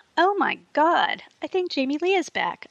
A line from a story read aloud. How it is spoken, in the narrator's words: exclaimed, covering my mouth and trying to look shocked